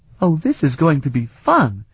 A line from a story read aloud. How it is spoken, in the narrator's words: Flute exclaimed delightedly